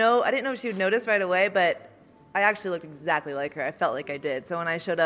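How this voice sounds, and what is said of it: Usual voice. Nothing is said of it.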